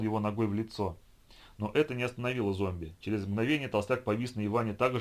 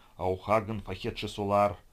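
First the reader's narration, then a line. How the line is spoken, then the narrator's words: Gurgling voice. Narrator (Russian): булькающим голосом изрек Вовка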